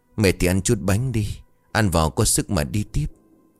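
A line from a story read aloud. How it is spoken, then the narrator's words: Sighing. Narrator (Vietnamese): thở dài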